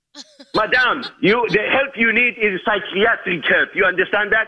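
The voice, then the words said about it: Speaks with a foreign accent. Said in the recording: “whatever else you said in that accent”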